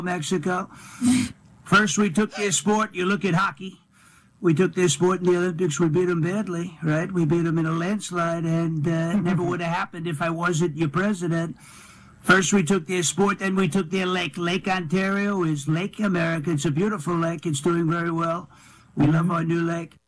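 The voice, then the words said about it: Imitates another person's voice. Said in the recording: “That's a good Trump impersonation. ... It's the ticks, like the habits, that are really good to pick up on. ... he actually sounds like Trump when he's just naturally speaking. ... his voice is very similar, and he has the same cadence”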